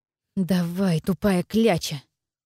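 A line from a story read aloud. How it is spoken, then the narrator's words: Angry hiss. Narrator (Russian): зашипела я на него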